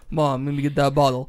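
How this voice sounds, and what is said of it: Imitation of a friend's voice. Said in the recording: “When he was two and he started talking, he sounded just like this... I can't do your impression.”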